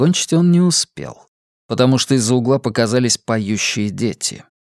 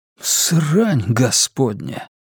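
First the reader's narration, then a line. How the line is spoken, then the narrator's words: Breathless exclamation. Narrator (Russian): выдохнул Эдди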